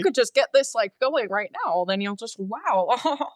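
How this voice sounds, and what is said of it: Imitates another person's voice. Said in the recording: “My Jeff Goldblum impression is really bad, but you get the idea. ... I loved your impression. It was spot on.”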